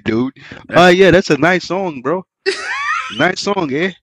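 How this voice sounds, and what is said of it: Put-on Canadian accent. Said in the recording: “The Canada accent... Nigga sound like they on Fargo.”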